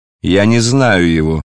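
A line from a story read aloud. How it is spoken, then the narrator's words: Loud. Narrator (Russian): сказал Варавва громко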